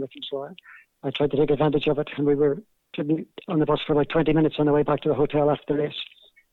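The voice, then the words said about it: Belfast accent. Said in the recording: “my Belfast accent”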